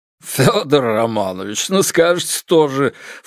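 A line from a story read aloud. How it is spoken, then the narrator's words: Snort. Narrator (Russian): фыркнул Шевцов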